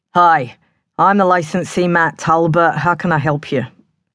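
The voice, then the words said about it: Thick put-on Cockney accent. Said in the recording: “His Cockney accent was as thick as mud.”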